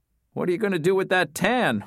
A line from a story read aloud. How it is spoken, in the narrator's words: Wes asked between laughs